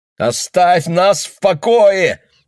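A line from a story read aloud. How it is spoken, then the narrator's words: Shouting. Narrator (Russian): закричал он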